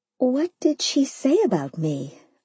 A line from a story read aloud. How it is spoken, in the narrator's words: I asked quietly, now worried